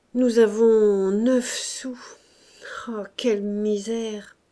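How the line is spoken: Growled after shrugging. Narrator (French): Il haussa les épaules, il gronda enfin

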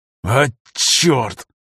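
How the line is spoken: Through gritted teeth. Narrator (Russian): процедил Афанасьев сквозь зубы

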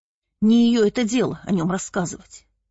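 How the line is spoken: Grumbling. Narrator (Russian): проворчала староста

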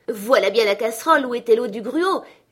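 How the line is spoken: Exclaimed. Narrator (French): s'écria-t-il

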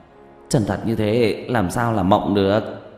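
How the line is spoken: Dazed mutter. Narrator (Vietnamese): Tiểu Mã ngẩn người, lẩm bẩm

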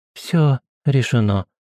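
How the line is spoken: Soft but firm. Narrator (Russian): мягко, но в то же время твердо ответила она

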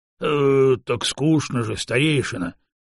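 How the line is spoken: Booming big man. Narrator (Russian): прогудел здоровяк

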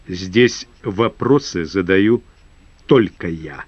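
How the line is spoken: Commanding, slow, clipped. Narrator (Russian): властно, медленно выговаривая каждое слово, отчеканил майор

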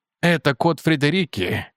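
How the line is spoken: Solemn. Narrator (Russian): торжественно сказал я

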